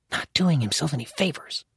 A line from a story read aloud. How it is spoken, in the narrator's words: the balding one hissed